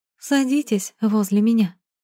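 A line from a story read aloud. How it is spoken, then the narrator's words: Sighing. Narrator (Russian): вздохнула она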